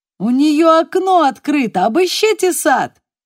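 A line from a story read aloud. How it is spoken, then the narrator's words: Shouted from behind. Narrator (Russian): крикнул доктор Смерть где-то позади нее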